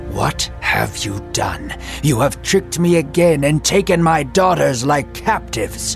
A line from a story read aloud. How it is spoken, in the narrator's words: Laban, livid and weary, roared at Jacob